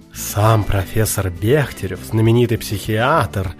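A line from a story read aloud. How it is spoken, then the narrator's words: Exclaiming host. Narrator (Russian): воскликнул хозяин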